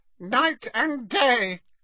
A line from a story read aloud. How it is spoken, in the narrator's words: croaked Creature